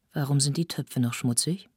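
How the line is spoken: Gentle but firm question. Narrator (German): fragte sie sanft, aber bestimmt

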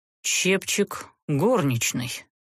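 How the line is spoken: Muffled exhale, serpent. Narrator (Russian): глухо выдохнул змей

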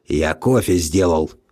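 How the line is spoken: Mumbling under breath. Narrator (Russian): пробурчал он себе под нос

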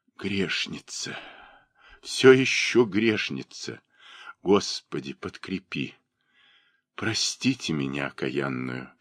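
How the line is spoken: Broken whisper. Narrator (Russian): шептала она прерывающимся голосом

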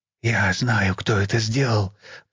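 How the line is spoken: Whisper. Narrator (Russian): прошептал Мартин

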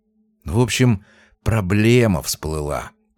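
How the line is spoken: Lowered whisper. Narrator (Russian): прошептал Тихонов, понизив голос до шепота

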